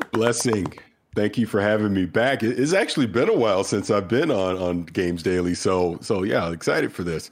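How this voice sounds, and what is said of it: Nasal, congested voice. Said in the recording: “A little under the weather ... I sound a little nasally, been battling a cold this week”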